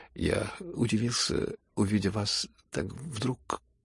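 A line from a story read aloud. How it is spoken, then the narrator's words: Mumbled, trailing off. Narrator (Russian): пробормотал было князь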